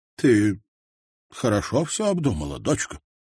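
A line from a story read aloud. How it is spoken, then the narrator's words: Confused, bewildered question. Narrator (Russian): спросил растерянно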